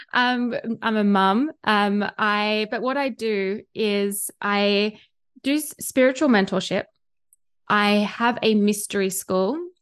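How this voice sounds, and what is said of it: Australian accent. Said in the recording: “probably by you can hear by my accent, I am Australian”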